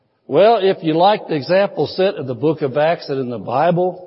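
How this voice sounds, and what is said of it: Usual voice. Nothing is said of it.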